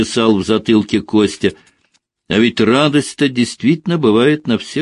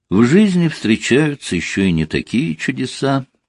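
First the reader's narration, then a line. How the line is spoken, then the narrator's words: Quiet reply. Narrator (Russian): так же тихо отозвался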